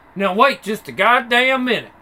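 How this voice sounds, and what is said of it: Put-on southern accent. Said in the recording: “she's got a southern accent.”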